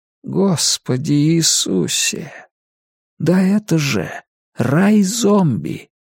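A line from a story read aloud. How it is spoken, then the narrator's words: Whispering. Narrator (Russian): прошептал Том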